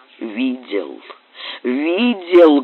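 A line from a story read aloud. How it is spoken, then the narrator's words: Muffled cry. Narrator (Russian): глухо вскрикнул Макферлен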